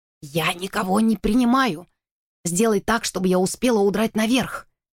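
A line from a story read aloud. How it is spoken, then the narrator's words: Whisper. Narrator (Russian): прошептала миссис Джо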